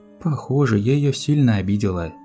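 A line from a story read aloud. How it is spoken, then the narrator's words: Sighing sorceress. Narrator (Russian): вздохнула волшебница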